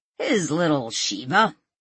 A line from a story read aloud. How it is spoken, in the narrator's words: Walt said with a snort